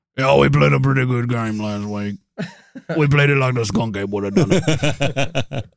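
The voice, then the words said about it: Imitates another person's voice. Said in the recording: “This is my Ed Orgeron impression.”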